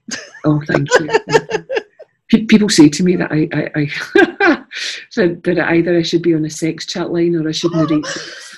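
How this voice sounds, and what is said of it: Scottish accent. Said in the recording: “I love your Scottish accent.”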